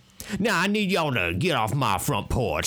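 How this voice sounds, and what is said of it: Imitated Louisiana Southern accent. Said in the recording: “He's not from Louisiana ... I would like to judge this an accurate accent”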